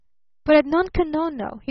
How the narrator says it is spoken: he cried eagerly

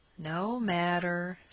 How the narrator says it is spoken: said the boy sullenly

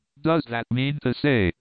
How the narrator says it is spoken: cried Martha with wide open eyes

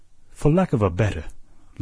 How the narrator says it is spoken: laughed the captain, good-humoredly contemptuous

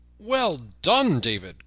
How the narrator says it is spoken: cried Robin

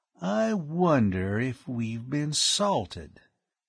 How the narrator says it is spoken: he said slowly

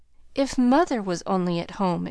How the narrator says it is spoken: exclaimed Joe

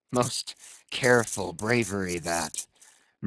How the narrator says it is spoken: murmured Ahab

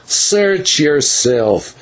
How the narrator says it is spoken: answered Don Smith sullenly

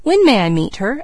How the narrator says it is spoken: asked Leslie eagerly

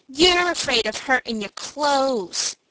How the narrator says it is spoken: said Mickey with a sneer

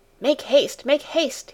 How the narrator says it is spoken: cried in a hurried voice

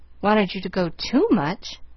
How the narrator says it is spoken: Pollyanna sighed again

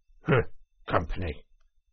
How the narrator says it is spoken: The badger grunted

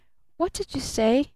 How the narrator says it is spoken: muttered little Eve Edgerton

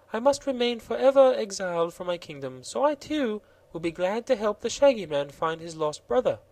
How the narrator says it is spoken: said Princess Ozga of Roseland with a gentle sigh

